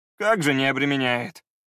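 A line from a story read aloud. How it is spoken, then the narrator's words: Sorrowful sigh. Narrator (Russian): горестно вздохнул кучер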